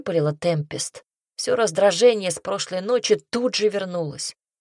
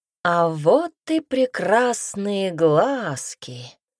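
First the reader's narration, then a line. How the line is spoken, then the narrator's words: Purring. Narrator (Russian): промурлыкал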